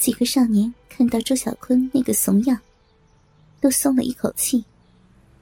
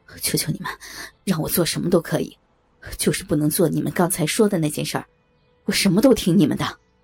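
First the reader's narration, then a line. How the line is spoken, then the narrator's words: Terrified pleading. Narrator (Chinese): 周小坤跪在地上，双手告饶，脸上一副害怕至极的神色，说道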